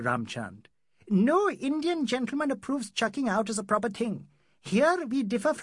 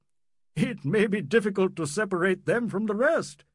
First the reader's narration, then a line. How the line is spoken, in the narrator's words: he laughed